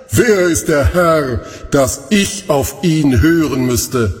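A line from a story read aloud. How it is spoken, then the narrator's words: Mocking laughter. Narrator (German): Und er lachte dabei spöttisch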